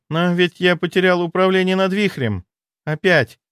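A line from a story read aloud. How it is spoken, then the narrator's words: Sorrowful sigh. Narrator (Russian): горестно вздохнула она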